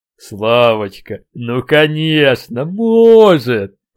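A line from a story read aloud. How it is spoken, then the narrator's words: Pleased drawl. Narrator (Russian): протянул сисадмин и довольно улыбнулся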